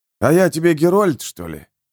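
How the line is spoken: Grumbling. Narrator (Russian): буркнул северянин

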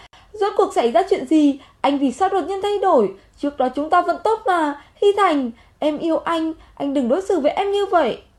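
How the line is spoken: Loud woman's voice. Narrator (Vietnamese): Cô ta lớn tiếng nói

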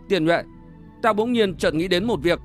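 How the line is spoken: Serious tone. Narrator (Vietnamese): Trang Dực bỗng trở nên nghiêm giọng nói

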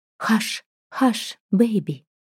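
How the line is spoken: Whispering. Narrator (Russian): зашептала на своем

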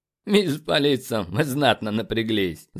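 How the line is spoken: Laughing. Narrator (Russian): засмеялся командир

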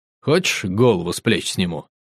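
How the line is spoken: Pleased hmph, question. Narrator (Russian): Довольно хмыкнув, спросил

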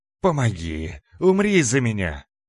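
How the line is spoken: Hoarse desperate shout. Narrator (Russian): хрипя, закричал Раздор

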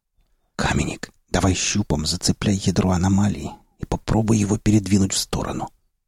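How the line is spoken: Spellbound whisper into microphone. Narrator (Russian): прошептал я в микрофон, не в силах отвести взгляд от завораживающего зрелища

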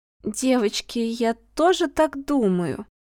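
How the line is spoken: Uncertain, hesitant. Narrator (Russian): опять раздалось неуверенно

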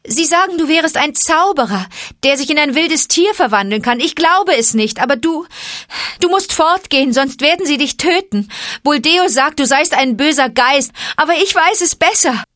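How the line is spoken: Calling. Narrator (German): rief sie

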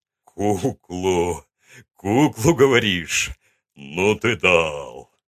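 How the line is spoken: Speaking after laughter. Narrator (Russian): Отсмеявшись, сказал он

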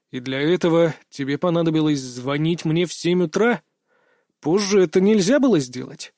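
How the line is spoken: Displeased grumble. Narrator (Russian): недовольно проворчал я

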